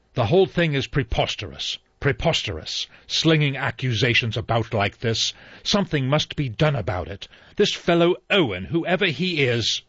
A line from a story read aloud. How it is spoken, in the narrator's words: He exclaimed